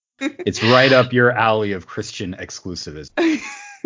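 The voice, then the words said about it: Sarcastic tone. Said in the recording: “You could tell I was being sarcastic there.”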